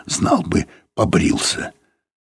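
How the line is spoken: Husky whisper. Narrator (Russian): кто-то сказал кому-то сипловатым шепотом

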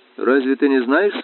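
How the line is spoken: Plain. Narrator (Russian): спросил я

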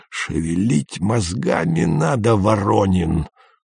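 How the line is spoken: Hoarse wheeze. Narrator (Russian): просипел он

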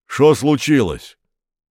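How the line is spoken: Deep bass voice. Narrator (Russian): пробасил Апанасенко

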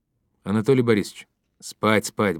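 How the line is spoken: Quick interruption. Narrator (Russian): быстро прервал его Ермаков

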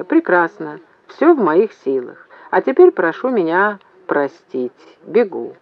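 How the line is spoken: Calm. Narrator (Russian): Вслух он сказал спокойно

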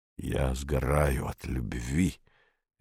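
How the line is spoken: Guilty mutter. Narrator (Russian): виновато пробормотал он

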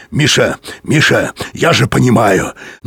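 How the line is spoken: Clear voice. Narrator (Russian): Юрковский сказал ясным голосом

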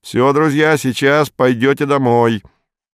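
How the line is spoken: Cheerful shout. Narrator (Russian): Вадим весело крикнул

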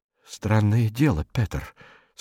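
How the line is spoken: Quiet. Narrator (Russian): сказал он негромко

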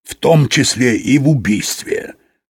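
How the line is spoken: Plain. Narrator (Russian): сказал Юрковский

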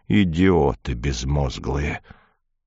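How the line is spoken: Growled, muffled. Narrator (Russian): как будто я его смертельно оскорбил, и только прорычал в тарелку

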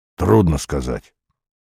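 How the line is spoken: Grumbling. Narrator (Russian): проворчал он

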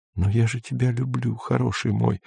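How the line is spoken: Desperate whisper. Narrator (Russian): шептала Сельма с отчаянием

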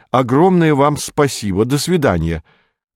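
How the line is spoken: Shouting. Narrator (Russian): крикнул он

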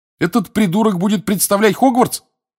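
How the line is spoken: Scornful snort. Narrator (Russian): хмыкнул Рон

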